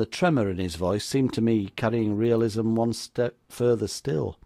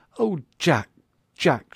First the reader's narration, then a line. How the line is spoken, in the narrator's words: she cried